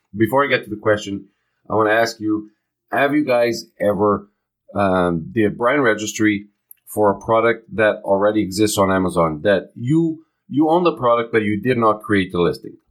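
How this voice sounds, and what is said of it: Congested voice from a cold. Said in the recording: “I have a little bit of a cold, so my voice may sound a little bit different.”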